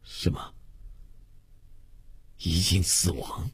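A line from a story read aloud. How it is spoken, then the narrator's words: Hoarse, stunned question. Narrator (Chinese): 周月的牙齿和舌头都有些不听指挥，口齿发僵，哑声呆问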